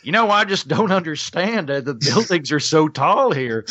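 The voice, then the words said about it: Exaggerated Oklahoma accent. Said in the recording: “I've just sort of inadvertently gotten contact with my Oaky roots when I'm on stage, where I lean into my accent heavier than I do now when I'm talking to people in regular conversation”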